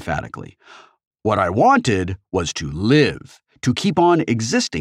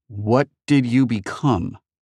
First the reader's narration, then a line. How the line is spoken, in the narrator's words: Artemis asked in an unsteady voice